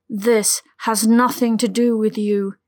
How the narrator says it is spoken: growled back, his voice distorted by the power running through his veins

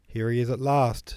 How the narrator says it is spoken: shouted Rostov

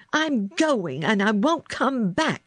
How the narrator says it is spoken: screamed

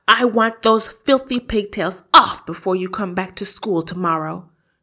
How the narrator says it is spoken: she barked

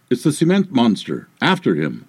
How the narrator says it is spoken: in disbelief cried out

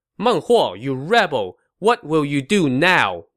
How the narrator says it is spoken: Zhuge Liang shouted to his foe

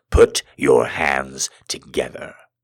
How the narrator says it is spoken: I growled

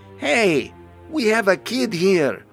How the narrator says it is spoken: Tilly shouts

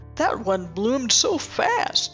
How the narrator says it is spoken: a man says, laughing

